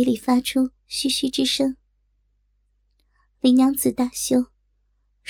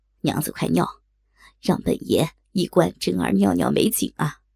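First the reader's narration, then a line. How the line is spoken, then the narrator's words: Leering laugh. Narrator (Chinese): 他……笑道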